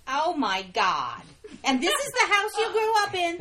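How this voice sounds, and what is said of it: Thick New York Jewish accent. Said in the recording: “thick New York Jewish accent”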